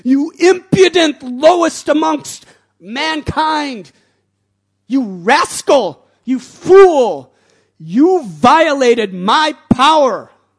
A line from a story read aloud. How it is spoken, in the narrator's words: His father screamed